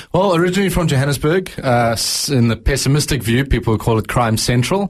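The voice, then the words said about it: South African accent. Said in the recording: “I love South African accents.”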